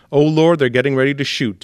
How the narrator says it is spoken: Dixon recalled shouting

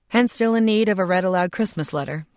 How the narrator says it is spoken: said Jules

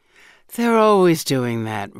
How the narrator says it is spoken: Rachel sighs

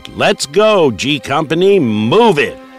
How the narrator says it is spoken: Lieutenant Damkovich yelled

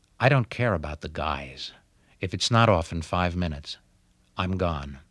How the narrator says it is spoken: I heard her say quietly to her husband

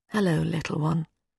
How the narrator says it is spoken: Softly, she said

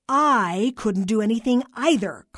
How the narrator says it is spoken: Carla barked

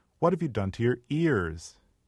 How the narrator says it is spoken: she cried

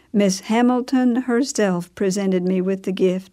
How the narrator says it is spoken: she said

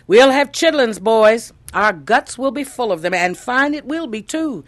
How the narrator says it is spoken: he exclaimed

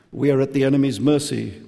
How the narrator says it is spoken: the enchantress said

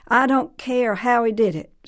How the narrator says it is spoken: snapped Mrs

